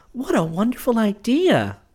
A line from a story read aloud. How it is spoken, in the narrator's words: she exclaimed